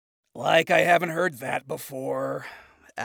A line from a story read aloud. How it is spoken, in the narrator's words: Adam muttered